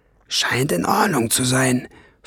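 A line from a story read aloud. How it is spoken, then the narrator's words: Whispered. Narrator (German): flüsterte sie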